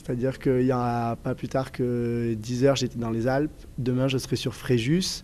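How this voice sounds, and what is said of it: Southwestern French Toulouse accent. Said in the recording (French): “un petit accent plutôt plutôt du sud, du sud-ouest ... un peu toulousain ... J'ai toujours l'accent du Sud”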